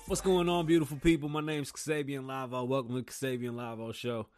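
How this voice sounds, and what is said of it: Radio announcer voice. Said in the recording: “Y'all still like this radio voice?”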